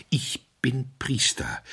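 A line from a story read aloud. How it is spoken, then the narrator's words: Unsteady calling voice. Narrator (German): rief mit unsicherer Stimme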